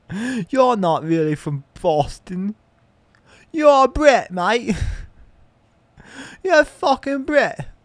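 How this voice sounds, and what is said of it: Put-on British accent. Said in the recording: “I'm just doing a British accent now.”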